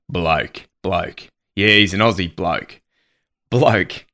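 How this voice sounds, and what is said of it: Deliberately deep voice. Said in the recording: “you have to say this with a deep voice.”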